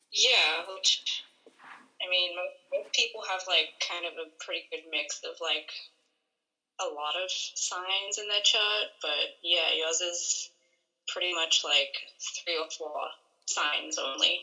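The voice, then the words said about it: Australian accent with New England mix. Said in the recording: “is from Australia, so that is not a Boston accent, that is an Australian accent ... It's probably mixed with a little bit of New England ... It's like a messed up mutt accent”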